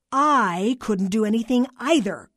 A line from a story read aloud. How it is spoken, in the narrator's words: Carla barked